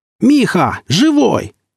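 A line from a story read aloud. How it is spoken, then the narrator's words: Yelled. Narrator (Russian): заорал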